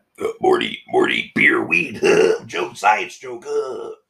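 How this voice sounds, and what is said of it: Bad imitation of cartoon character voice. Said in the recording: “Your Rick and Morty impression is terrible. ... Or your Rick Sanchez impression. ... I think it's just bad.”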